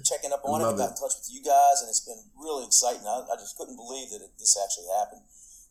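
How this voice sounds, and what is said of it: Strong regional accent. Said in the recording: “he's still got that voice. ... The accent, man.”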